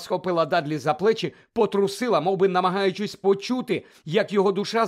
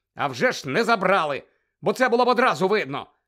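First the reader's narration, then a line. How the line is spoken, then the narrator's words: Angry retort. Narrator (Ukrainian): сердито кинув Гаррі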